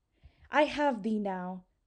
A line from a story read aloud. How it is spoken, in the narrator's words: cried Pellinore